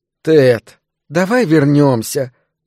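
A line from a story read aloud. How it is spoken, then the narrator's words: Moaning. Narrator (Russian): простонала Пегги Бартон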